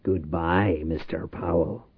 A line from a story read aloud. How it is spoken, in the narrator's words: Reich muttered